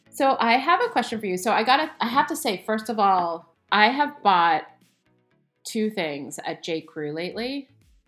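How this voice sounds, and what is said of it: Stuffy, congested voice. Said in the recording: “you sound like you're a little stuffy ... I have a little bit of a cold.”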